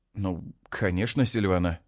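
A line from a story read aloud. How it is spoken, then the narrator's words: Confused. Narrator (Russian): отвечаю растерянно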